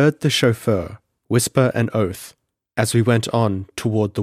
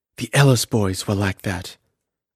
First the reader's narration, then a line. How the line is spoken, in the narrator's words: woman whisper